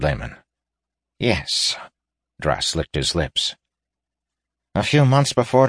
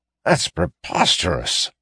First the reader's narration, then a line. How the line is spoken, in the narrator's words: sputtered Tayrus, louder than he should have